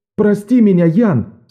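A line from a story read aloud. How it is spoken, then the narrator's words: Shouted again. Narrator (Russian): снова закричал Беннон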